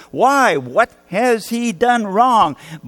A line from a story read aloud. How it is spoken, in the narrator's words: a mob screaming for blood